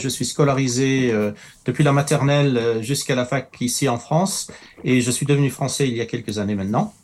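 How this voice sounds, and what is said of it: Foreign accent in French. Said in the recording (French): “tout le monde se demande d'où vient mon accent”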